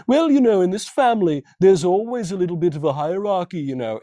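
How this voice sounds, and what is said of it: Put-on British accent. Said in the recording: “My accent's not that great. ... Yeah, she was good. I was into it.”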